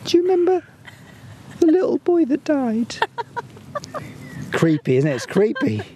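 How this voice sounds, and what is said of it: Put-on child's voice with accent. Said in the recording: “I love it when you do the kids' voice... Why do you always sound like Mickey Mouse?... I did do the accent, didn't I?... Should I do the accent again?”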